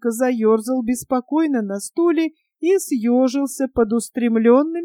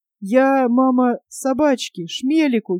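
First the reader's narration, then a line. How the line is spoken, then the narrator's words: Uncertain. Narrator (Russian): неуверенно ответил он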